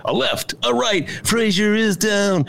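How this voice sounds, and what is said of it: Imitates a boxing announcer's voice. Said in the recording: “That's my Howard Cosell imitation”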